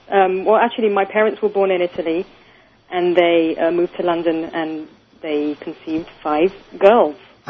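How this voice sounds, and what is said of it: British-sounding accent. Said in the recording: “Australian accent? ... Not twangy? No. It sounds English. It sounds British.”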